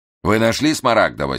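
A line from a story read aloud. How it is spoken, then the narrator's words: Angry question. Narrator (Russian): сердито спросил Штерн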